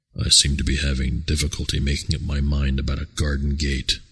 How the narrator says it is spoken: he said to himself bitterly

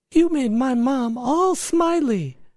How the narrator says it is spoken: she exclaimed

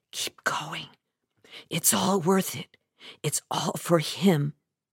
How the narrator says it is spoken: I'd whisper to myself

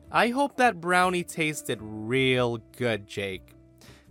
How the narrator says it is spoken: I said loudly and sarcastically

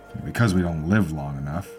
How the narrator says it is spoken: said under her breath

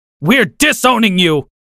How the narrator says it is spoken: my dad screamed

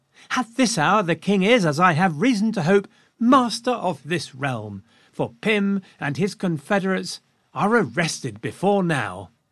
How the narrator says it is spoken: Then all of a sudden, Henrietta Maria perked up, and she exclaimed to Lucy

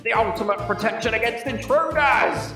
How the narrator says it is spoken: he's screaming

